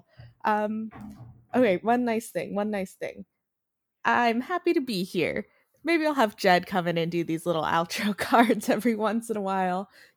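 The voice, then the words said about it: Nasal Valley accent. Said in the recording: “I'm a little nasally. I'm very Jewish. I grew up in the valley. My accent is awful.”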